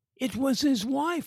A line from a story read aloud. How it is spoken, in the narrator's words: Larry shouted back instantly